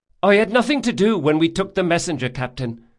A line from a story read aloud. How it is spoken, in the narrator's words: Del Mastro said hastily